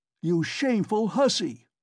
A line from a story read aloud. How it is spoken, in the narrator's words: he shouted suddenly at the top of his voice